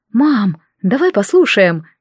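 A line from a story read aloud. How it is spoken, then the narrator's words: Sighing. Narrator (Russian): вздохнула я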